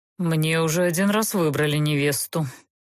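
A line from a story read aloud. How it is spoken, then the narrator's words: Pale, through gritted teeth. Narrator (Russian): бледнее процедил Геверт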